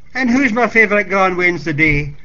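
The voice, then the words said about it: Thick Scottish burr. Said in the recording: “his accent just as thick as the day he had sailed from the Broomielaw some 40 years earlier ... her grandfather's burr”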